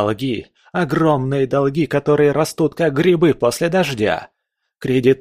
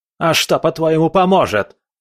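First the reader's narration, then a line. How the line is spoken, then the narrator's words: Shout. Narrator (Russian): закричал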